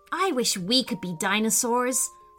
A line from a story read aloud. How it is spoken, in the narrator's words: sighed Chase